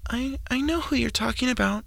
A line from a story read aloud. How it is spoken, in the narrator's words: the one girl whispered with a look of shock on her face